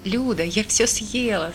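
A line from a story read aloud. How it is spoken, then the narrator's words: Laughing. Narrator (Russian): смеялась я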